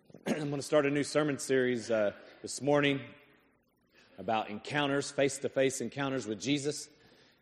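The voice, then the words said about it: Strained, worn-out hoarse voice. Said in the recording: “apologize for my voice a little bit ... I blew my voice out coaching”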